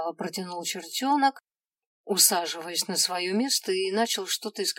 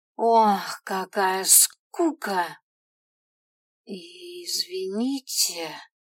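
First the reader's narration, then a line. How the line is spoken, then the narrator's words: Uncertain, restrained voice. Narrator (Russian): Неуверенно начала я, стараясь не повышать голоса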